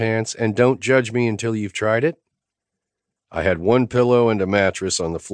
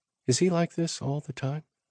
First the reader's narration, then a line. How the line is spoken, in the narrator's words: She asked, softly